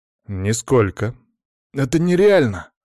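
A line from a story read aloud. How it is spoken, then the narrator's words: Exclaimed. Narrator (Russian): воскликнул Влад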